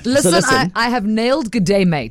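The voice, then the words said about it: Put-on Australian accent. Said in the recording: “Australian! ... Australian accent”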